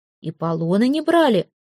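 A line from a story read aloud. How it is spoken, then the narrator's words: Exclaiming. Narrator (Russian): воскликнул Святослав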